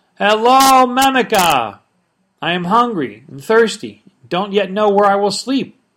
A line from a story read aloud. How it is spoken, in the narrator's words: he said in a loud voice